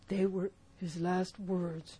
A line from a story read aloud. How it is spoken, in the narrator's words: moaned Morgan